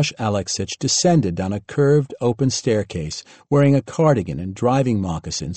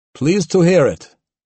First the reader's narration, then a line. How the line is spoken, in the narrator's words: booming voice